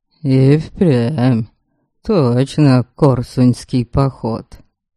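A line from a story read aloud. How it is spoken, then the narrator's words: Smirking snort. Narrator (Russian): Хмыкнул посадник Твердобор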